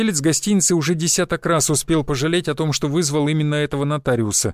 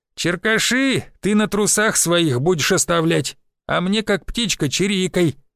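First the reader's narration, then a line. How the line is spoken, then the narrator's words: Toothless old man snapping. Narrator (Russian): шамкая зубами, огрызнулся старик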